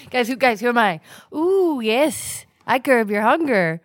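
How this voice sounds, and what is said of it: Character voice of a candy bar. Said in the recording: “your Snickers impression ... that Snickers impression”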